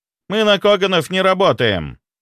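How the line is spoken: Dry reply. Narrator (Russian): сухо ответил он

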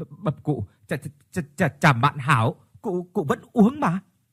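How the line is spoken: Panicked stammering. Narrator (Vietnamese): Chị Xuyến thấy lão nổi điên thì hoảng quá, lắp bắp

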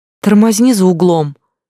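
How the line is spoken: Shout. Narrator (Russian): крикнула она

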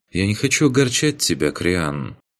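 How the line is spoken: Quiet, over comms. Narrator (Russian): в канале группы тихо произнесла Ваеса

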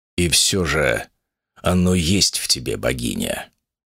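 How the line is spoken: Emperor muttering. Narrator (Russian): пробормотал небесный император

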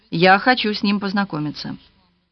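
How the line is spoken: Calm speech. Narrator (Russian): спокойно сказала

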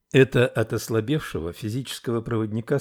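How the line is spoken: Plain. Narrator (Russian): сказал учитель

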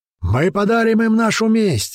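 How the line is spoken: Yelling. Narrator (Russian): заорал кто-то

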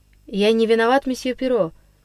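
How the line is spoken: Forced calm. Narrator (Russian): произнес, стараясь говорить спокойно, Андрюша

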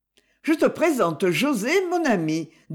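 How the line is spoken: Cheerful tone. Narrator (French): dit Livia d'un ton enjoué

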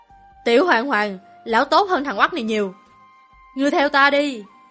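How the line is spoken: Loud shout while running. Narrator (Vietnamese): Lão nhân kia co giò chạy, miệng hét toáng lên

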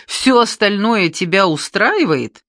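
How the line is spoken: Uncontrollable laughter. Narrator (Russian): Он хохотал и не мог остановиться

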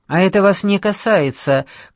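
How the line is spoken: Shout. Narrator (Russian): крикнул

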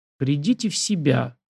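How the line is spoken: Pleading. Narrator (Russian): взмолился я

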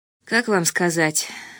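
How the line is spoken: Quiet. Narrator (Russian): сказал тихо

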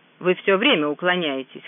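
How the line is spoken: Snorting. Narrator (Russian): хмыкнул Крамер

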